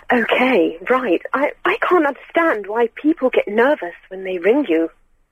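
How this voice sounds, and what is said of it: Put-on posh phone voice. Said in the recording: “do a posh voice? ... This is my phone voice, and I have to use it at work ... Do the call in your posh voice”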